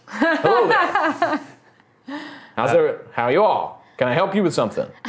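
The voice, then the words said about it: Mild Southern drawl character voice. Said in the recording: “he doesn't have a fully deep South accent”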